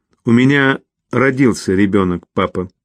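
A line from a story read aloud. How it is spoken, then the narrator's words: Cold. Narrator (Russian): холодно произнесла она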